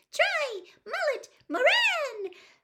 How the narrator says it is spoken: the rosette on Harry's chest kept squeaking

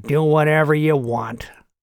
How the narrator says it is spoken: Clyde grumbled

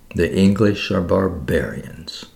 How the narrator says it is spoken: murmured

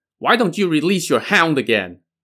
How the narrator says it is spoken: Green Firmament, the middle sister, now shouted at Yang Jian

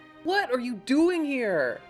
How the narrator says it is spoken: the receptionist called out

